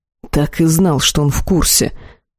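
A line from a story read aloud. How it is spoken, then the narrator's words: Furious exhale. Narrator (Russian): выдохнул взбешенный Арвиэль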